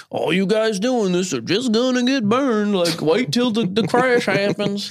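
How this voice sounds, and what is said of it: Put-on Southern Texan accent. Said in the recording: “Texas accent. That sounded a little Southern ... I'm doing a Texan accent.”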